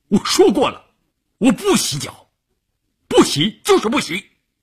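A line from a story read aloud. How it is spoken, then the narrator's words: Angry shouting. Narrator (Chinese): 关山林……瞪着眼睛冲乌云大喊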